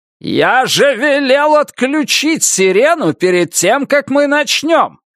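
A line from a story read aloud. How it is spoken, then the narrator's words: Angry shout. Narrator (Russian): закричал Джейкобс на Руди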